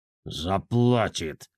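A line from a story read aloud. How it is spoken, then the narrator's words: Rabbit promising through teeth. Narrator (Russian): сквозь зубы пообещал кролик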